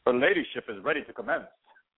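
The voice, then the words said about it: Bad old-fashioned English accent. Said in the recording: “I was doing a really bad old English, like old American, like, you know, like John Smith kind of thing.”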